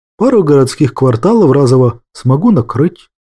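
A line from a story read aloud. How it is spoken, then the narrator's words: Calm, matter-of-fact. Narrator (Russian): спокойно сообщил Петр Петрович, как само собой разумеющееся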